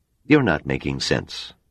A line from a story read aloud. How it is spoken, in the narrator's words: Donner said flatly